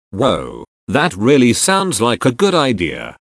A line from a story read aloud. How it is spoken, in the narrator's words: Barla Tegra exclaimed